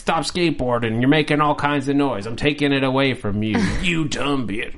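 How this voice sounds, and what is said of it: Imitates another person's voice. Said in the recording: “that was my impression of Danny's reaction to having his skateboard stolen”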